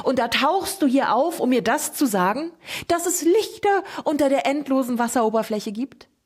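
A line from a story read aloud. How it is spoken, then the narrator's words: Shouted. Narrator (German): schrie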